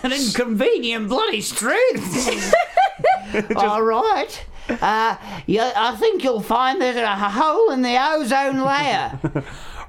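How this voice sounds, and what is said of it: Put-on Cockney-like accent. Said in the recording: “It's not an Australian accent, that was just Cockney.”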